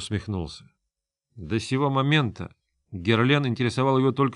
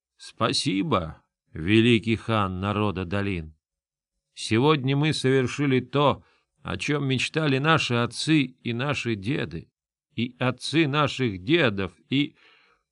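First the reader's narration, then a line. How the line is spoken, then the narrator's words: Solemn. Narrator (Russian): Хан Тейлеп ... торжественно произнес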